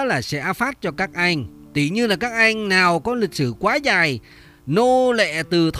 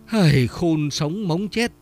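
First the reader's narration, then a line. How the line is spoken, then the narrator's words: Sighing. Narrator (Vietnamese): Vĩnh anh chỉ thở dài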